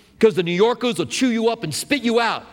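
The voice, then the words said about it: Put-on New York accent. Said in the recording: “Did you like my New York accent there?”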